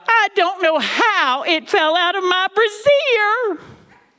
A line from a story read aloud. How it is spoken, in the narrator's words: Granny cried out